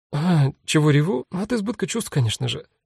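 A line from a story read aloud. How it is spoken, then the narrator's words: Brisk rapid patter through tears. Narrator (Russian): деловитой скороговоркой объясняет Фань и улыбается сквозь слезы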